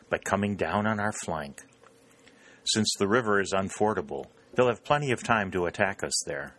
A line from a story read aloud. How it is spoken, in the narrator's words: said Longstreet